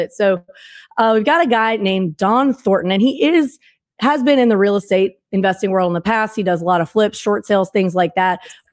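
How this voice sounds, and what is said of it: Voice audibly off, unwell-sounding. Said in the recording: “apologize for my voice... I've been in large crowds in Disney and Universal this week with the kids. So really sorry that you have to listen to me like this”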